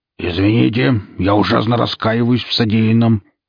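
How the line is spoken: Growl. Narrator (Russian): прорычал мэр

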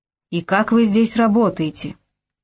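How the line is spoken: Muffled growl through rubber. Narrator (Russian): прорычал я, обращаясь к напарнику сквозь резину

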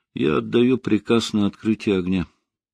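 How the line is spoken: Calm statement. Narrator (Russian): спокойно произнес

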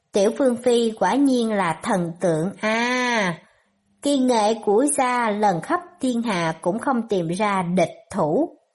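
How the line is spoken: Sighing. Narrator (Vietnamese): thở dài

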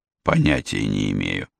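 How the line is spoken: Sincere mutter. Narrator (Russian): буркнул Стивен совершенно искренне

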